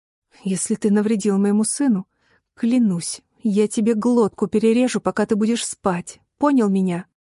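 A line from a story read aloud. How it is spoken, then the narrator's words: Vicious angry hiss. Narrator (Russian): Слова срываются с губ злобным шипением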